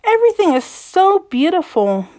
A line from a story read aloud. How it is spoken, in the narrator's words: Belle exclaimed